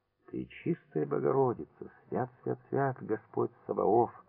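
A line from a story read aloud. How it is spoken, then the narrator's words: Muttering. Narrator (Russian): бормотал Митрич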